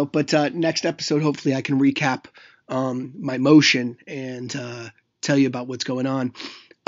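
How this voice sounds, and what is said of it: Slightly raspy voice. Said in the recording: “I'm a little under the weather, so my voice sounds a little raspy”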